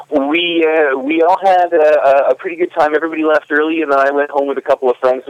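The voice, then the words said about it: Nice radio voice. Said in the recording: “he has a nice radio voice.”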